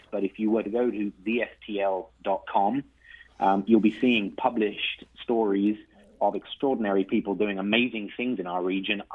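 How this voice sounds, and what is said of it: Slight accent from elsewhere. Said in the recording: “you sound like you've come to us from someplace else. I detect a bit of an accent”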